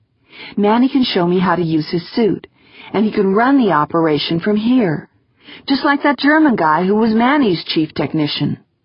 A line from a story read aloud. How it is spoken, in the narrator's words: Wonderly said urgently